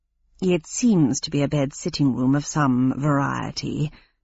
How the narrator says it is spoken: murmured Sprocket

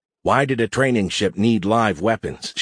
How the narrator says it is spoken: she had asked

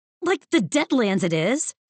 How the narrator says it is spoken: sputtered

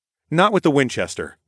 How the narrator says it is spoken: I said quickly

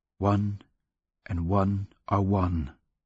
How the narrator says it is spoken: to whisper

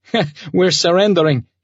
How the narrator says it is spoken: laughed

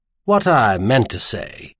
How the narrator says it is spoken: corrected himself in a dignified tone

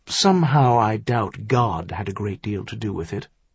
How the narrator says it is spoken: Maison said dryly

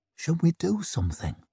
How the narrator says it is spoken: whispered

